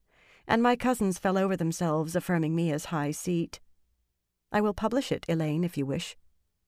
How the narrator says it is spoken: the young woman said calmly

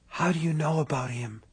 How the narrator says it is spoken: she whispered

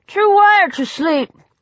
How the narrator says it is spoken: he said, his voice clogged by cheesy noodles

